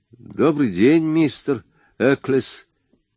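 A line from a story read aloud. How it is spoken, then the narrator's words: Uncertain. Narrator (Russian): неуверенно поклонился ему Фразер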